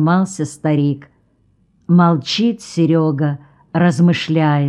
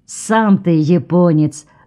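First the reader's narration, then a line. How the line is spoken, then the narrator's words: Snapped back. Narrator (Russian): огрызнулся Серега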